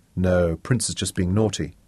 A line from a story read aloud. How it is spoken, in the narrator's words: Sean murmured